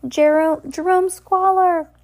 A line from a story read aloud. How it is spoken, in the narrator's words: Justice cried